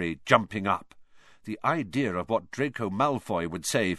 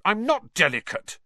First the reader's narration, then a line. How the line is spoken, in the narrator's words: said Harry crossly